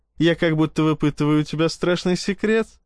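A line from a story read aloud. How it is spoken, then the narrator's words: Laughing. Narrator (Russian): рассмеялась Яна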